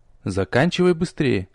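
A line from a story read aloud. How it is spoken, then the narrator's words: Curt undertone. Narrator (Russian): вполголоса бросил я девочке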